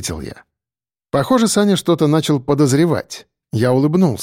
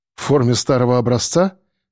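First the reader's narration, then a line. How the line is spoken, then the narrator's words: Amused snort. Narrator (Russian): хмыкнул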